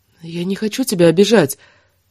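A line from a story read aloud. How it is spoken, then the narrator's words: Timid. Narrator (Russian): робко начала она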